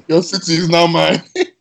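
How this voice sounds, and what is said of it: Comic book villain voice. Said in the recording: “I sounded like a comic book villain”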